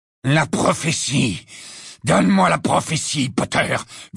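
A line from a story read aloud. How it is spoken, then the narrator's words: Growl close to ear. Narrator (French): gronda la voix de Lucius Malfoy à son oreille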